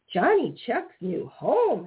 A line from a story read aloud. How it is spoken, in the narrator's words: exclaimed Peter Rabbit